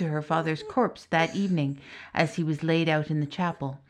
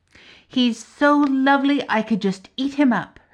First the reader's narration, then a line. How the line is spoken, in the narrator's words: her friend exclaimed